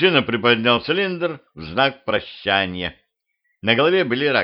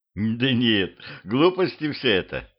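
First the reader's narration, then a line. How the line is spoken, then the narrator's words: Laughing. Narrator (Russian): рассмеялся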